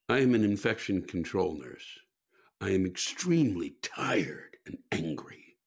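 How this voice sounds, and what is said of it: Hushed, smooth mellifluous voice. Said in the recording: “talking in this kind of voice, these hushed tones, mellifluous”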